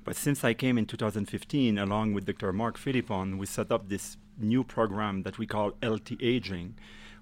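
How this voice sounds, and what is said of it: Québécois French accent in English. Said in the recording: “as you can tell by his accent, he ain't from here. You're a Quebecois?”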